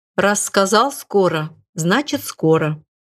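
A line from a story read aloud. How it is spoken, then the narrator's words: Calm teacher. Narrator (Russian): спокойно проговорил сенсей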